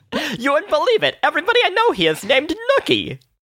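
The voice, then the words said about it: High-pitched wise-guy voice. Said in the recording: “his high-pitched voice and just like was sucking on a cigar with this very high-pitched voice ... my impersonation ... A wise guy, eh?”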